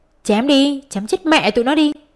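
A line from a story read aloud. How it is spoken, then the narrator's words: Injured thug yelling repeatedly. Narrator (Vietnamese): Một thằng trong đám côn đồ bị thương ở tay luôn miệng la lên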